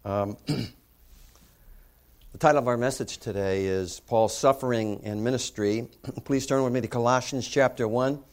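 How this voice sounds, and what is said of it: Raspy, hoarse voice. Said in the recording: “my raspy voice and my throat clearing this morning”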